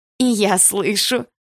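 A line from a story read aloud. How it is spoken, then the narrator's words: Nasty girlish laugh. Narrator (Russian): противно засмеялась одна из ее подружек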